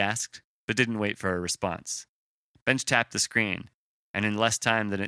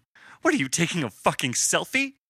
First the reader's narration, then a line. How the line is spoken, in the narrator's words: she snapped